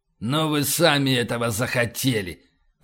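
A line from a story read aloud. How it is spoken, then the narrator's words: Hissing. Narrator (Russian): прошипел утконос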